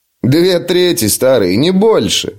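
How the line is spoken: Laughing. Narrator (Russian): рассмеялся Том

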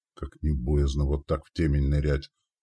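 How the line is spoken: Whisper. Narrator (Russian): прошептал слега

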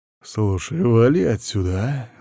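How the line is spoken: Menacing, through teeth. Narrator (Russian): угрожающе процедил

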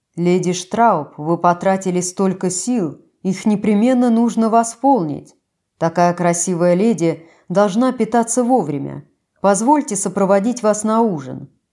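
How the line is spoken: Cheerful deep bass. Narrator (Russian): капитан Брун, расцвел, увидев меня, и пробасил

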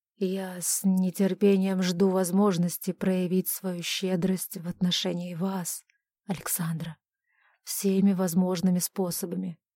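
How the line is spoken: Hoarse, duke. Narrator (Russian): хрипло продолжил герцог

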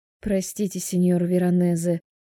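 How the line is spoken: Apologetic mutter. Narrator (Russian): бормочу я

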